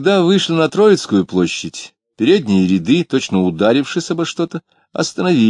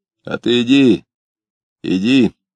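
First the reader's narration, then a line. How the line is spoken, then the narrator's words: Hoarse male voice. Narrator (Russian): ответил ему хриплый мужской голос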